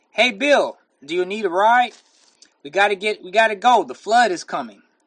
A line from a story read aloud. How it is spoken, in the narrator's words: He called out